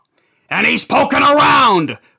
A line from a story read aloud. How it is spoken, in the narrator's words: Rich said with a roar